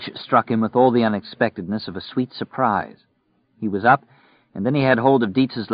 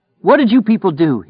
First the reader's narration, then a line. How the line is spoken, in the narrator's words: shouted